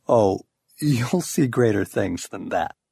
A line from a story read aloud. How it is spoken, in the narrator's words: he has to chuckle just a bit when he says